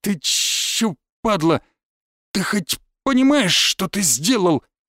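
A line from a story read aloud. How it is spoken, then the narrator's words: Stammering, forced out. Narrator (Russian): Заикаясь, выдавил из себя один из шестерок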